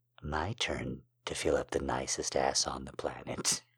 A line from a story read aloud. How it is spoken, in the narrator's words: he whispered